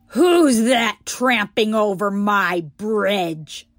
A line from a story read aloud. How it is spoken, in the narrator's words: roared the troll